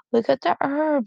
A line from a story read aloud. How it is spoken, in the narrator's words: Snow Kit squeaked